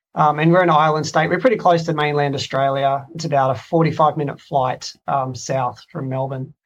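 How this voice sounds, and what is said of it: Australian accent. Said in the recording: “I guess I probably should explain the accent real quick.”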